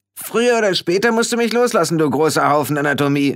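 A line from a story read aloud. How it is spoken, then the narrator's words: Calling out. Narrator (German): rief Rob irgendwer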